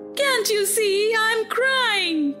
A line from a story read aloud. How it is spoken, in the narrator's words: cried